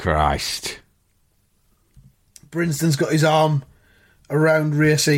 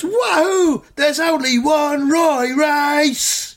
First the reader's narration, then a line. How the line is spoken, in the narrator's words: He shouts